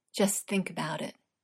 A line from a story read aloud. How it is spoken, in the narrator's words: Google murmured